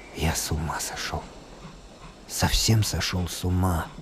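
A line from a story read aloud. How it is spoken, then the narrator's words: Quiet mumble. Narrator (Russian): пробормотал тихо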